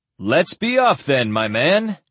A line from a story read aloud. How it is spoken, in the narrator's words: Calton said in a louder voice